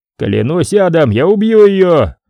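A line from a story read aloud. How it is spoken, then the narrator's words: Shouted. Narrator (Russian): прокричал мутант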